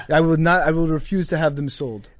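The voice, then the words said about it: Put-on French accent. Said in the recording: “Pretty good French accent.”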